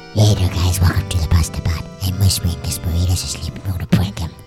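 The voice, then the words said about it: Low growling whisper. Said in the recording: “why does your voice sound like that ... That's more than a whisper. It's like a low growl.”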